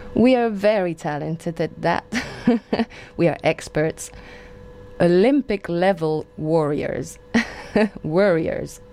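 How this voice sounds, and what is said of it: Speaks with a British accent. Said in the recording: “My accent.”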